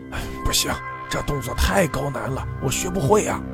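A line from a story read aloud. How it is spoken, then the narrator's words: Panting. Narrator (Chinese): 刘文海喘着气说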